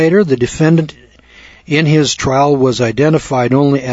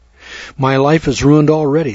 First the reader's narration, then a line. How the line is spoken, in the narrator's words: said Vera Stretz